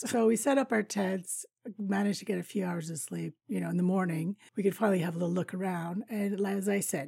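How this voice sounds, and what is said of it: Raspy voice. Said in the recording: “My voice is a little bit raspy today. Well, raspier than usual.”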